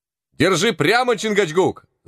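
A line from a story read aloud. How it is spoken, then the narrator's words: Shouting again. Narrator (Russian): закричал опять Зверобой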